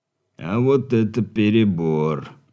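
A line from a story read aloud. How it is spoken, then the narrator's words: Dejected man. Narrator (Russian): сокрушенным тоном, произнес мужчина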